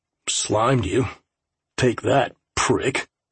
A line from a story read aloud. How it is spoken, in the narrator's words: muttered